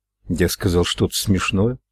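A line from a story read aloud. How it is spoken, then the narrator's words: Plain. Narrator (Russian): спросил МакГоверн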